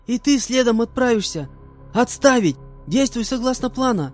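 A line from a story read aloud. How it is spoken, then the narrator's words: Girl shouting. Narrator (Russian): Закричала на меня девушка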